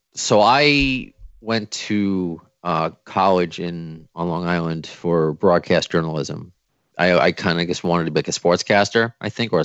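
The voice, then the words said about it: New York accent. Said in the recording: “So I'm from New York. I don't know if you could tell by my accent”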